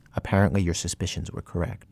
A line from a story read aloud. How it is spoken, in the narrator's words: He says very quietly